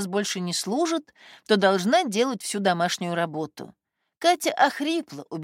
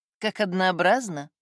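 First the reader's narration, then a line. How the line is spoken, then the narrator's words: Sigh. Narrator (Russian): вздохнула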